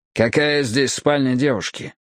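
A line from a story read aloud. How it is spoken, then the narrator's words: Curt remark. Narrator (Russian): отрывисто бросил я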